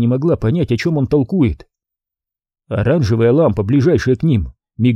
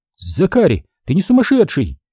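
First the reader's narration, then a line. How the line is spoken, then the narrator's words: Exclaimed. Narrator (Russian): воскликнула она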